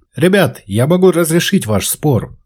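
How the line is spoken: Loud, strained effort. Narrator (Russian): сказал так громко, как только смог, собрав всю свою волю в кулак

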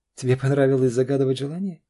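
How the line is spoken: Ringing laugh. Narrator (Russian): рассмеялась она звонко

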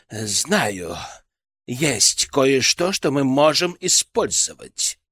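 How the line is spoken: Sudden lively exclamation. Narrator (Russian): Он вдруг ожил и воскликнул

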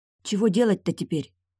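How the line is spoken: Shivering whisper. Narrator (Russian): шепнула Яра, зябко поёживаясь

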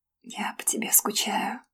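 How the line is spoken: Whisper. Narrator (Russian): прошептала

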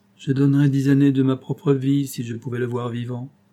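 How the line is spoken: Sad reply. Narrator (French): répondit tristement Robert

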